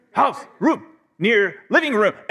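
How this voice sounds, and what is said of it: Caveman-style Neanderthal voice. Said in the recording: “my Neanderthal, you know, accent, whatever that is”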